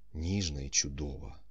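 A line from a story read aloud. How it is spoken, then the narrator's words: Muttered. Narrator (Ukrainian): пробурмотів він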